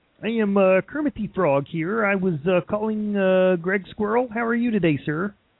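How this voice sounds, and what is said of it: Kermit the Frog impression. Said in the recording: “my Kermit the Frog impression”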